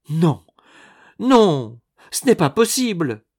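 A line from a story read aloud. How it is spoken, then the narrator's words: Panicked exclamation. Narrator (French): s'écria Nicole affolée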